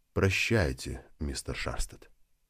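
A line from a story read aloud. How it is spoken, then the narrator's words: Gentle concluding remark. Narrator (Russian): мягко подвел черту хозяин дома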